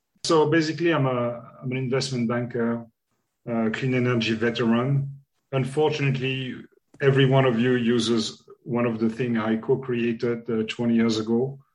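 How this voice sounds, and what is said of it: French accent in English. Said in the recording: “you'll have double French accent and no Irish accent”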